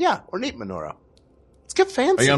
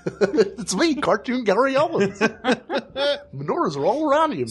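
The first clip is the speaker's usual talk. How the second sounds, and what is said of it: Cartoon-style Gary Owens impression. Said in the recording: “A cartoon character doing an impression of Gary Owens.”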